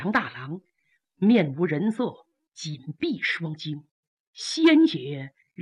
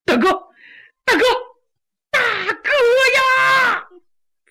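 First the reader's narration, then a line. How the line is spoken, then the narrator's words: Loud wailing. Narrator (Chinese): 杨七郎是放声大哭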